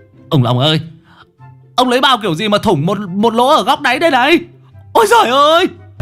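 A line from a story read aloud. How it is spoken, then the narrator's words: Startled shriek. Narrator (Vietnamese): giật mình rú lên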